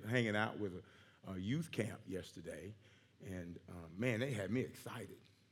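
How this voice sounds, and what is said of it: Strained, worn-out voice. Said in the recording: “excuse my voice a little bit ... running around screaming, yelling with them, and this is the product”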